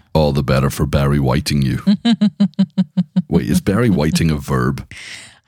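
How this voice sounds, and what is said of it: Unusually deep, rough voice. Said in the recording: “My, what a deep voice you have ... the coughing that comes with your voice ... now I sound a little bit more caramelly ... earlier, I sounded like the man from the trailers ... Kind of goes in and out”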